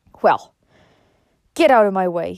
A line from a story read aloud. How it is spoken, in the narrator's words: he said roughly